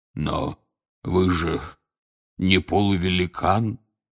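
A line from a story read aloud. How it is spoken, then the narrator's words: Hoarse wheeze. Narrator (Russian): прохрипел Хагрид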